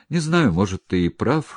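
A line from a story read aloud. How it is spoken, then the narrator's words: Resigned sigh. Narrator (Russian): вздохнул Громов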